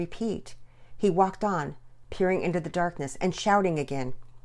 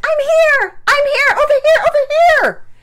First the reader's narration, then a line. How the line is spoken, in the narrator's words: yelled so hard that she could feel her voice losing its strength